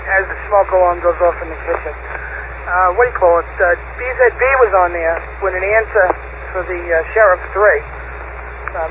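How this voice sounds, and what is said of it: Hoarse, fading voice. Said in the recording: “I'm losing my voice over here”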